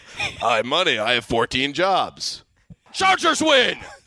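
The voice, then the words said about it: Imitates another person's voice. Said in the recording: “Is that a good impression? ... It's a good voice.”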